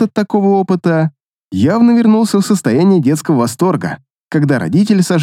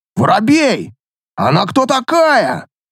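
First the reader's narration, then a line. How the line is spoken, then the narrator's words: Loud booming shout. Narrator (Russian): Зычно крикнул долговязый и тощий человек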